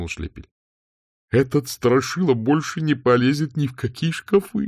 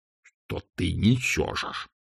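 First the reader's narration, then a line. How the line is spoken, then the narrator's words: Hissing. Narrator (Russian): прошипел чудак Улли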